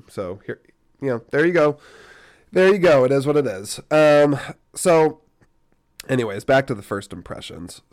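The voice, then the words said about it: Rough, unwell-sounding voice. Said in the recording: “I'm still recovering, my energy, my voice is all messed up”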